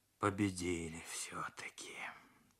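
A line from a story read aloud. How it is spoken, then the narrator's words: Wheezed hoarsely. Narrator (Russian): Прохрипел Морозов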